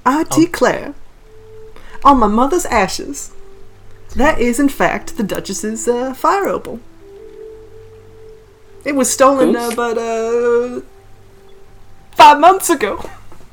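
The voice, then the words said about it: Put-on Southern Belle accent. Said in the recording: “some like Texas accent or something ... Southern Belle ... I'm trying to do the Southern Belle ... You're doing a great job.”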